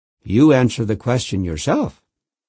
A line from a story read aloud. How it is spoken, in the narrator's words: replied in a steady voice